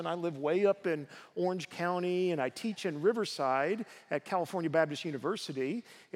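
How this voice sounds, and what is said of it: Southern US accent. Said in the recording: “I was back in the South where I come from. You might detect an accent, but I'm trying to overcome that.”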